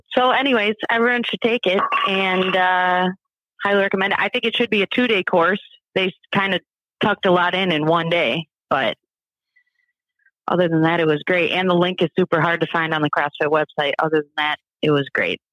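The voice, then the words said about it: Strong Upper Midwest accent. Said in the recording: “it's a pretty severe accent ... definitely from Ohio or Minnesota ... Wisconsin”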